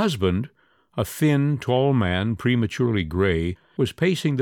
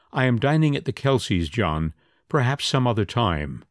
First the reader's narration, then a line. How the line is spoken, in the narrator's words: Angry to feel herself a little at loss, Margaret said in a carefully controlled tone